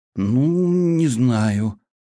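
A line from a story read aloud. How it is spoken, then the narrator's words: Drawl. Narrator (Russian): протянул Вальхем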